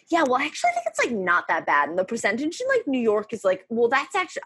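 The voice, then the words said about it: Imitates another person's voice. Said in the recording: “I'm just actually doing an impersonation of one specific person”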